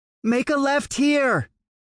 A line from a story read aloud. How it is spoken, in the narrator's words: came the feminine shout in my ear